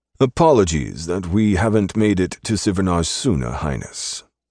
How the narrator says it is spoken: he said

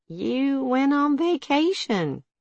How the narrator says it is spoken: Malden sighed, admitting

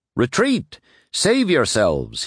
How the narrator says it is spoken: cried

